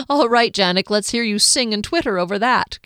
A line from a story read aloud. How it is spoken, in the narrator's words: Kier laughed